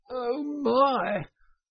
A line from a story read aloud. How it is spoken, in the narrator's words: gasped the poor toad